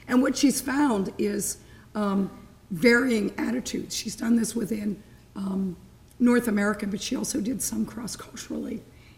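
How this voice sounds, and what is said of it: Hoarse, failing croaky voice. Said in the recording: “my voice is really going ... I think I sound more like a sick frog”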